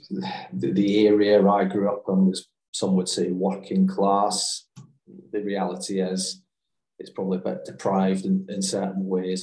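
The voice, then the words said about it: Glaswegian Scottish accent. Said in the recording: “as you can probably tell by the accent, is I'm not from, ... the South, or I grew up in the East End of Glasgow”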